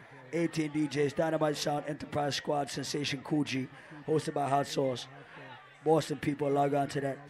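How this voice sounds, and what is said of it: Worn-out, strained voice. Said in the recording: “my voice is dead”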